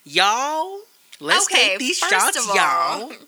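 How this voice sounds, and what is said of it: Paula Deen Southern accent impression. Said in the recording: “That Paula Deen accent.”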